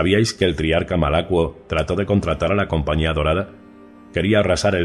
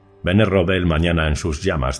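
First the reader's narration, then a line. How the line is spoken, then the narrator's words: Plain, widow. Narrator (Spanish): dijo la viuda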